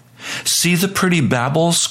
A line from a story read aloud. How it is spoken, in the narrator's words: cried a woman